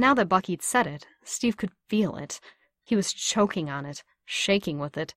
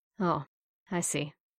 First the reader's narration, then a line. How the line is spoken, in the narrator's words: Bucky said softly